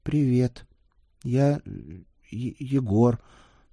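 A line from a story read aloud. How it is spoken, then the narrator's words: Timid mumble. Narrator (Russian): сжимаясь от робости, промямлил он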